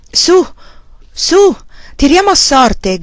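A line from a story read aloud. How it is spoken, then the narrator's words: Young page shouting. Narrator (Italian): gridò un giovane paggio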